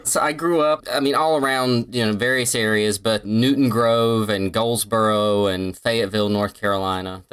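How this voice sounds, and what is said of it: Southern US accent. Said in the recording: “your amazing Southern accent... backwoods North Carolina”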